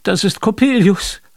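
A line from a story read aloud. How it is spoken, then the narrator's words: Horrified cry. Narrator (German): rief ich entsetzt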